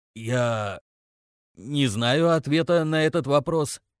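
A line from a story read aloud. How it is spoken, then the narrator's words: Strained, forced out. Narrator (Russian): выдавил следопыт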